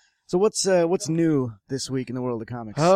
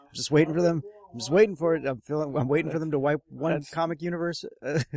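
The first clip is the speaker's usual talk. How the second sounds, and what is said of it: Stressed imitation of another person's voice. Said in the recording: “That's my Tina impression. She gets stressed.”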